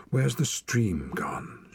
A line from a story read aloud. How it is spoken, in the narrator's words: she breathed